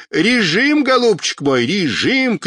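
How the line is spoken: Shouting into phone. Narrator (Russian): кричал дядя Сёма в трубку

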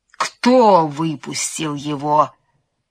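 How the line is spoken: Menacing question. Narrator (Russian): грозно спросил Помидор

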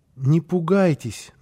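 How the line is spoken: Timid. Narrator (Russian): начал робко

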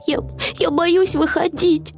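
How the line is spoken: Sobbing. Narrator (Russian): всхлипнул Финдус

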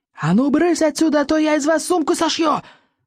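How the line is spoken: Yelling. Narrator (Russian): завопил

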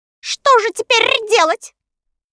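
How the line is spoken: Anxious question. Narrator (Russian): взволнованно спросила Кагикар

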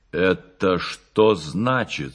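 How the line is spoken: Menacing. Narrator (Russian): сказал грозно Кирилл Петрович

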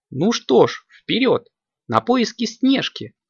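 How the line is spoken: Exclaiming, imitating another's manner. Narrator (Russian): воскликнула Аленка, точь-в-точь, как обычно говорила Варя

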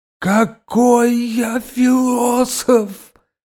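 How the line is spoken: Wailing in tears. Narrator (Russian): завопил Василий Иванович, и слезы так и закапали по его щекам

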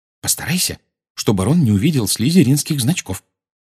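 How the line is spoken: Whispered. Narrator (Russian): шепнула она

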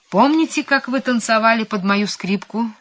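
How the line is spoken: Cheerful question. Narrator (Russian): спрашивал он, весело подмигивая

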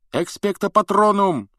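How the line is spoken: Shout. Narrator (Russian): закричал Гарри

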